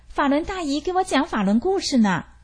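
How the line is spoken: Loud answer. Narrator (Chinese): 他高声回答

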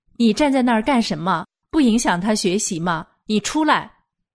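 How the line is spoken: Yelling angrily. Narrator (Chinese): 女儿又冲着我大喊大叫

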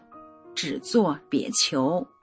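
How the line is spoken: Slow. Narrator (Chinese): 我慢慢的说

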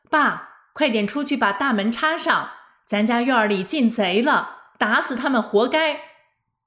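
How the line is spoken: Loud shout. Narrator (Chinese): 小姑子大声喊我公公

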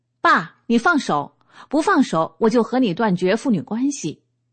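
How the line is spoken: Loud distant roar. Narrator (Chinese): 突然不远处发出一个响亮的吼声

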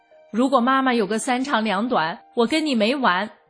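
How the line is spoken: Eldest son's loud angry shout. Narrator (Chinese): 大儿子一听，大声地吼道

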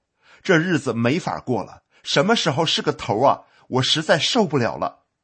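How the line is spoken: Furious roar. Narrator (Chinese): 我大发雷霆，吼道

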